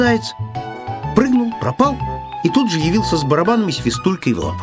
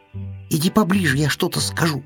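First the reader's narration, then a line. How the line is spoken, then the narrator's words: Whispering. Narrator (Russian): зашептал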